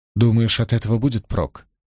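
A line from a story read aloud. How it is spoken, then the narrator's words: Quiet question. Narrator (Russian): тихо спросила Найниф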